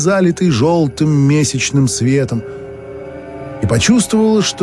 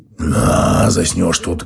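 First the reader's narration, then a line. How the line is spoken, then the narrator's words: Displeased bass grumble, near-whisper. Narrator (Russian): недовольно проворчал Феогност, стараясь умерить свой бас до шепота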